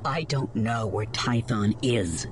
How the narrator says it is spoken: she snapped back through clenched teeth

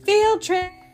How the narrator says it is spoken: they cheered excitedly

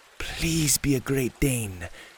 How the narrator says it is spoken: whispered to himself

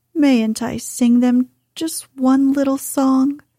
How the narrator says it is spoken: he pleaded piteously

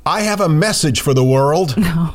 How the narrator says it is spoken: shouted

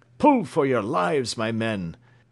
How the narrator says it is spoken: cried James Playfair, urging on the sailors

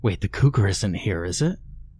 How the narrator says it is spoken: Martin whispered

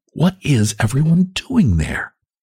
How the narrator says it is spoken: she whispered

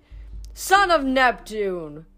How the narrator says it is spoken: Phineas exclaimed

